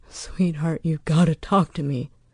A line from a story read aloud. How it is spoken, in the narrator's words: he pleaded again and again